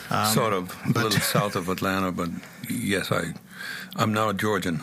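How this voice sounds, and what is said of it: Slight foreign accent. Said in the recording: “if you're detecting a little bit of accent”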